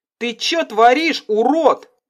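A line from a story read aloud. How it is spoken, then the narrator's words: Yelling. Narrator (Russian): заорала Карина водителю впереди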